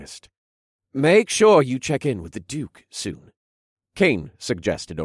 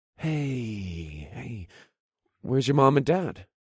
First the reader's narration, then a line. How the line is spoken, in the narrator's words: I asked in a gentle voice so I didn't scare him